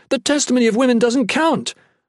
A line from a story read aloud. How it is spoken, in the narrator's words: Lodan yelled anxiously